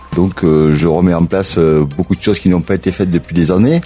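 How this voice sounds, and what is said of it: Southern French accent. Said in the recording (French): “je viens du sud, avec mon accent je pense que tout le monde a compris”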